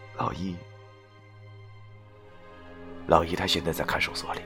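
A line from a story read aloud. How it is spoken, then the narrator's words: Sighing, hesitant. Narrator (Chinese): 他想了想后，叹了口气，然后对我说道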